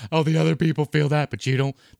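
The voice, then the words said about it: Imitates another person's voice. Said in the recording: “that's a good impression of her”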